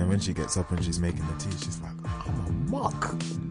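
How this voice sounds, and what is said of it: Usual voice. Nothing is said of it.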